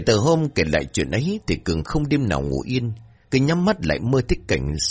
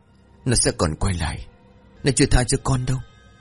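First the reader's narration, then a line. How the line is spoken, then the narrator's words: Trembling voice. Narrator (Vietnamese): Cường vẫn run rẩy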